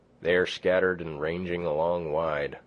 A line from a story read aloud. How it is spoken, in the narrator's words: he said